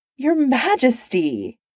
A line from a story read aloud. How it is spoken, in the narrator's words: He cried